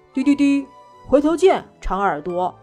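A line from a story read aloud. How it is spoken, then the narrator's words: Loud. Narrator (Chinese): 小老虎大声地对长耳朵兔说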